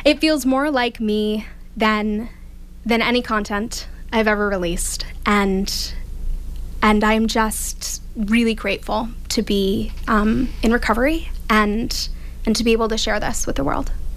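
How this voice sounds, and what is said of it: Choked-up, emotional voice. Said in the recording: “oh my gosh, I'm getting choked up already”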